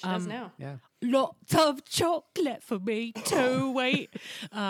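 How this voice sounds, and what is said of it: Usual voice. Nothing is said of it.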